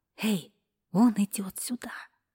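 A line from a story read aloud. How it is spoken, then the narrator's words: Whisper. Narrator (Russian): она шепнула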